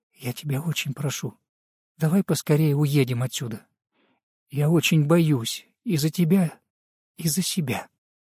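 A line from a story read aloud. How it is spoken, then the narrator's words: Quiet pleading voice. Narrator (Russian): тихо с мольбой в голосе добавила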